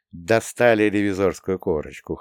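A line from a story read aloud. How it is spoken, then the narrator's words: Short laugh. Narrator (Russian): хохотнул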